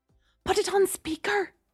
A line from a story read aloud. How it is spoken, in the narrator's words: Gemma hissed